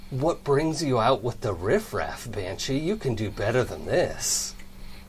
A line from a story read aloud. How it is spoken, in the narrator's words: you hear this kind of raspy voice say